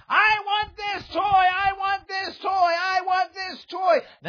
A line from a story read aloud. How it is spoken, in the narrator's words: The daughter starts screaming